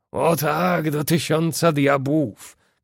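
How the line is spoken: Shouted. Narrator (Polish): krzyknął Ned Land

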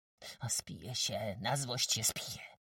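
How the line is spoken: Muttered. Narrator (Polish): mamrotał, biegnąc

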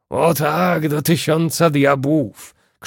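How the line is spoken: Shouted. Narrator (Polish): krzyknął Ned Land

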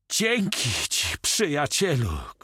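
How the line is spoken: Shouting. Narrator (Polish): krzyczał Kochma

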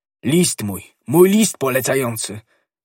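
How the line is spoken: Shouting. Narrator (Polish): krzyczał D'Artagnan

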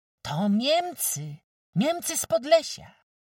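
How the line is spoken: Exclaimed, unknown speaker. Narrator (Polish): wykrzyknął ktosik

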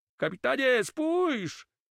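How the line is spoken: Sudden shout. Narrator (Polish): krzyknął nagle Carmo

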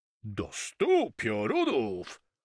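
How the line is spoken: Exclaimed. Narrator (Polish): wykrzyknął Cahman

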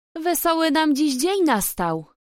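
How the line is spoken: Booming call. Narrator (Polish): gromko zawołał

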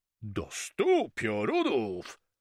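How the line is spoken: Exclaimed. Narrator (Polish): wykrzyknął Cahman

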